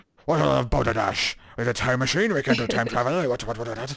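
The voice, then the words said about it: Put-on old-fashioned Monopoly man voice. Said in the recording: “I'm the Monopoly man ... I don't know how much my Scottish accent came through in that. Or was I successfully doing that stereotype of the Monopoly man?”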